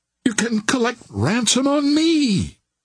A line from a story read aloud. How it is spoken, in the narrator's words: cried Devine, clutching at a straw